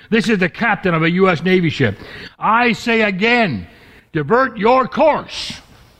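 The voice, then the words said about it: Raised, loud commanding voice. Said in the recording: “I'm raising my voice for emphasis.”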